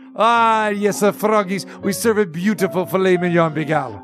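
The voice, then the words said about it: Put-on French accent, sounds Middle Eastern. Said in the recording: “That is a very interesting French accent you got going there ... he sounded Iranian ... You sounded Middle Eastern”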